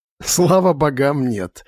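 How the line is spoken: Laughing. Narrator (Russian): рассмеялся Сантер

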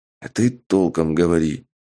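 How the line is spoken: Whisper. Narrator (Russian): прошептал я гоблину

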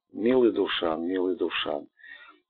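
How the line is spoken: Deeply tender. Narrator (Russian): с глубокой нежностью сказал

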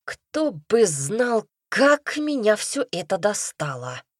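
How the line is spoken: Moaning. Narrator (Russian): Простонал ректор

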